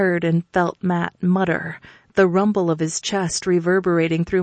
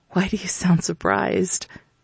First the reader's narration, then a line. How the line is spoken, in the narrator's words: I whispered